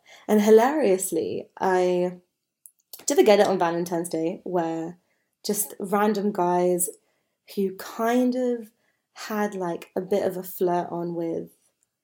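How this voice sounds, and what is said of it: Sick, unwell-sounding voice. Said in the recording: “hear from my voice, but I am not very well. I'm quite sick”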